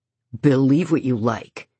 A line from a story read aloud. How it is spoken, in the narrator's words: Ian growls back